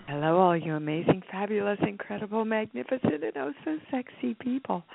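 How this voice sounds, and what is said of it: Put-on sexy voice. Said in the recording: “This is my sexy voice.”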